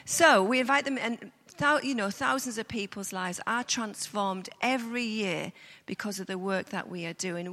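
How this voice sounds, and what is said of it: Speaks with a noticeable accent. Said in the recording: “can you understand my accent?”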